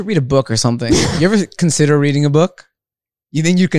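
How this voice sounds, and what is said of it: Usual voice. Nothing is said of it.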